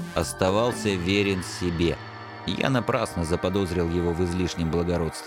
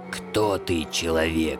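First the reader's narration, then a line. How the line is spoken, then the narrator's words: Hoarse question. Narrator (Russian): хрипло спросил Сыч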